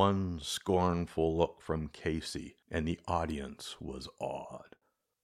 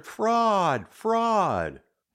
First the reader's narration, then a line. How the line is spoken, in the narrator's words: cried the maddened thousand